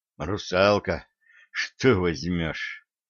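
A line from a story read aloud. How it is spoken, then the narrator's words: Breathed out. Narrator (Russian): выдохнул он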